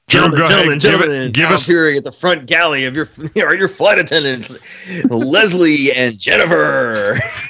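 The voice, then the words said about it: Strip club DJ announcer voice. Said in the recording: “I should do it in the strip club DJ voice one time.”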